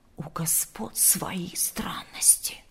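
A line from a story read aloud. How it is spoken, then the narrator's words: Servants whispering. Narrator (Russian): шептались слуги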